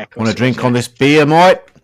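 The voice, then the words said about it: Put-on Australian accent. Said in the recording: “Oh, that's Australian.”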